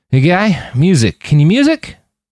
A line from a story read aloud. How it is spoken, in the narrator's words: Roland realized he was slurring, and his words were not coming out the way he'd intended